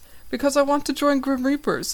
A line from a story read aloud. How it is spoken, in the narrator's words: I exclaim, a little worried by their possible reaction